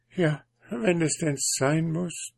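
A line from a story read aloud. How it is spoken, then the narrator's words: Hesitant, evasive. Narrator (German): druckste die Prinzessin herum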